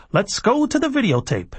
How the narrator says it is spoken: Warner Anderson, imprisoned inside their Sony large-screen TV, cried

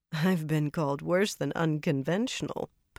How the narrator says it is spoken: Pavara said dryly

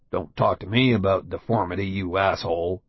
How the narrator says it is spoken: a guy born with a congenital birth defect, who's muttering to himself

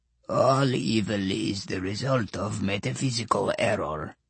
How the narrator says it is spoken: in a raspy little voice

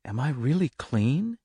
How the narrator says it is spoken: he whispered

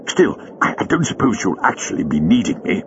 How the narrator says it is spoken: added Jago hastily

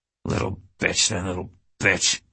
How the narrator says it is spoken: he kept muttering

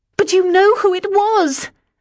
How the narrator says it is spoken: I said to Richard almost hysterically

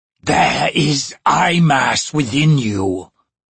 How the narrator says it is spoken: Raist rasped

